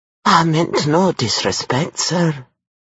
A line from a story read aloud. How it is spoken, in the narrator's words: she said in an obsequious voice that managed to convey fear and respect